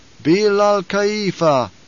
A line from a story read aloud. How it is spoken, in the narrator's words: intoned the troop